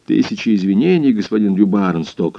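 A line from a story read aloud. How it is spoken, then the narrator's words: Plain. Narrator (Russian): сказал хозяин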